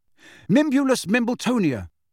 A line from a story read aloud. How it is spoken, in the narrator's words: he gasped at the fat lady